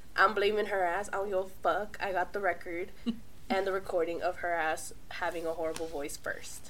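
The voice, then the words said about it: Sick, unsteady changing voice. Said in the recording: “sorry for my voice ... I will probably be 50 shades of different voices because Leda here got me sick”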